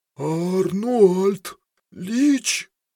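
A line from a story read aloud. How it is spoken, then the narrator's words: Hoarse, terrified. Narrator (Russian): прохрипел он, с ужасом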